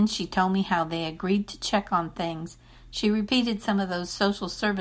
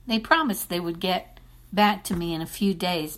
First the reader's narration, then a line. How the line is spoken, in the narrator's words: Bertha said